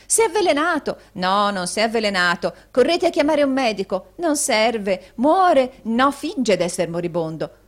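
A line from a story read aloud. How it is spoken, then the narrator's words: Wildly changeable cries. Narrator (Italian): con varie altre grida di meravigliosa volubilità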